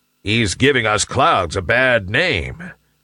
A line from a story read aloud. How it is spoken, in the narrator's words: growled a big, burly cloud